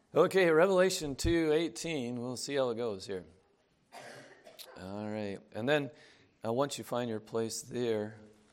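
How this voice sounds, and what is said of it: Hoarse, failing voice. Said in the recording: “I've kind of losing my voice”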